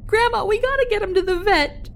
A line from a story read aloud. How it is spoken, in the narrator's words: I screamed, desperate